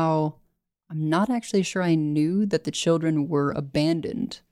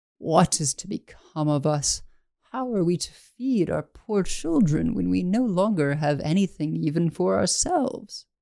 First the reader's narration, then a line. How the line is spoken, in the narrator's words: in his anxiety, he groaned and he said to his wife